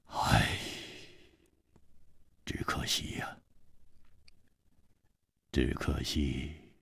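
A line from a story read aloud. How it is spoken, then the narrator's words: Sudden sigh. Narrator (Chinese): 他忽然叹了一口气说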